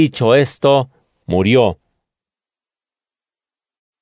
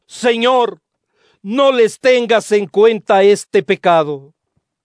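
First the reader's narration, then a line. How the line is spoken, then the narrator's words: Loud shout. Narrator (Spanish): gritó con voz fuerte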